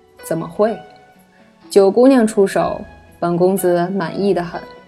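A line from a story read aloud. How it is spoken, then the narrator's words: Smiling, calm. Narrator (Chinese): 他笑了笑，淡淡道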